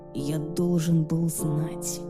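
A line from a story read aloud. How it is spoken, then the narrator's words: Whispered. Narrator (Russian): прошептал Люциан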